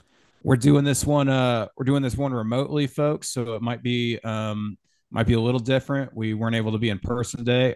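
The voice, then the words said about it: Rough, worn-out voice. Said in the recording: “I'm recovering from a cold, so my voice might sound a little bit shot.”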